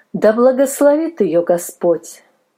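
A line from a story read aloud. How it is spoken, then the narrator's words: Plain. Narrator (Russian): сказала мадам Милли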